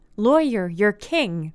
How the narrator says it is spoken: they shouted

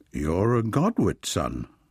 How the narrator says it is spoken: said Mr

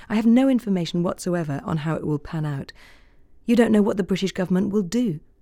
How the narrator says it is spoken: the diplomat said sadly

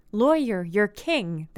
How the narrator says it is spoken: they shouted

